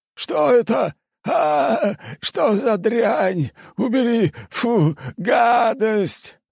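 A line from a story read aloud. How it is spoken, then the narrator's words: Old man yelling, distorted voice. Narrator (Russian): Старик орал не своим голосом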